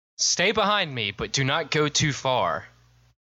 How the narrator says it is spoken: I yell to Velma

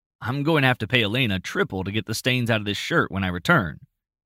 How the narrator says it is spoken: he chuckled to himself

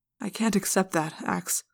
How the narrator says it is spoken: Prince Jake said sadly

